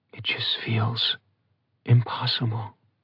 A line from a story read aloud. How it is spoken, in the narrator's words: Rhiannon whispered